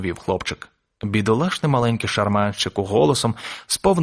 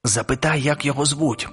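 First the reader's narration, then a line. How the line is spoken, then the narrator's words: Whispered request. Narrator (Ukrainian): пошепки попросила Мейбл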